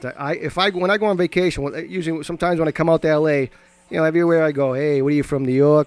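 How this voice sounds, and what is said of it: Heavy regional American accent. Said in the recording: “We have that heavy accent.”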